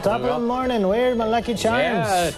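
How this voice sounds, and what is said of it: Put-on Irish accent. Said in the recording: “trying to do the Irish accents ... That was good. ... British. ... It's British.”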